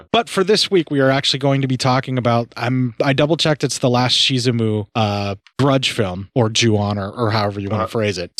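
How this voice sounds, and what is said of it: Deep husky raspy voice. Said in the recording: “my lungs, my ears, everything's all jacked up right now. And my voice is in Kathleen Turner overdrive”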